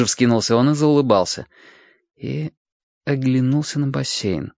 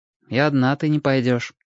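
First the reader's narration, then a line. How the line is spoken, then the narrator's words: Even tone. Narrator (Russian): сказал Костик все тем же ровным тоном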